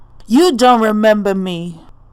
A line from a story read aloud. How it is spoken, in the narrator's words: Shuddock shouts